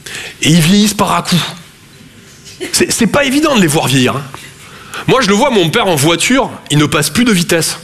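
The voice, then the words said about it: Toulouse southern French accent. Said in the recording (French): “Je viens de Toulouse à la base. Ouais, ça s'entend un peu. ... mon accent”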